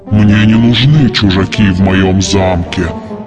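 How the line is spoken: Monstrous growl. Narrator (Russian): прорычало чудовище

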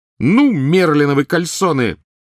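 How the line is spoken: Sudden piercing shriek. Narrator (Russian): Вдруг завизжала она с такой силой

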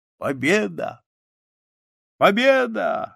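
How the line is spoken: Drunken, laughing speech. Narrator (Russian): Напившись, Петр засмеялся и сказал

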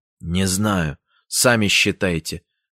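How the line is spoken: Curt grunt. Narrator (Russian): буркнул Сеня

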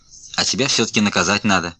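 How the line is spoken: Angry. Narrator (Russian): сердито сказал я сынишке

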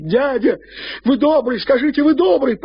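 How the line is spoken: Nearly screaming. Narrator (Russian): почти криком кричала она

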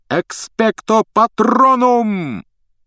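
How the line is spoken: Shouted. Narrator (Russian): крикнул он

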